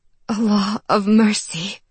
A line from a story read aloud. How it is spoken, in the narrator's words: she gasped